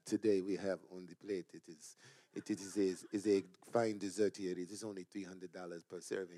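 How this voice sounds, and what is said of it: Put-on French accent. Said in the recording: “That was my French accent.”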